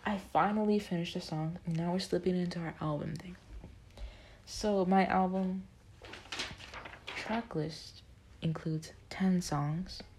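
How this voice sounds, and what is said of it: Strained, worn-out voice. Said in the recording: “my voice is burnt out”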